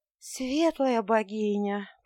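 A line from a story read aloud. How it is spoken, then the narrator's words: Weak moan. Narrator (Russian): простонала я слабеющим тоном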